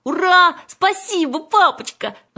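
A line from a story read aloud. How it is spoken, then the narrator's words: Happy girls shouting. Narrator (Russian): закричали довольные сестры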